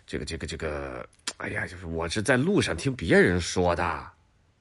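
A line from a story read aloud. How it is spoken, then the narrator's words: Vague mumbling. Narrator (Chinese): 那邻居立刻含糊了，嘟嘟囔囔的说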